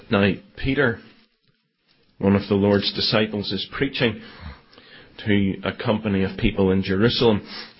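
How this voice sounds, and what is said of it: Belfast accent. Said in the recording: “in my best Belfast accent.”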